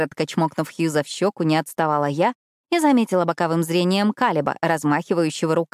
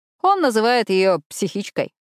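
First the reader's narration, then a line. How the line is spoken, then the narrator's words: Laughing. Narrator (Russian): рассмеялся Итан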